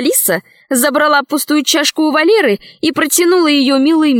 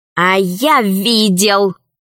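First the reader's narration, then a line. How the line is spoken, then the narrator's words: Hissing. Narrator (Russian): прошипел Василиск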